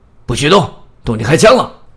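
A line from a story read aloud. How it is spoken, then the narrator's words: Loud roaring shout. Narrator (Chinese): 警察吼叫着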